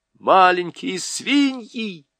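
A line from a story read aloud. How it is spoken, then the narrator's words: Excited squeal. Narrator (Russian): взвизгнул Юстас, приплясывая от возбуждения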